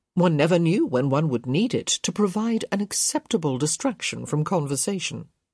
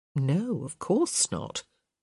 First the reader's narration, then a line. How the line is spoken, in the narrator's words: Violet murmured